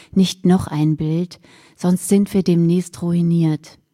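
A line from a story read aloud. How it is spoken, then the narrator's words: Sighed. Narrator (German): seufzte Konrad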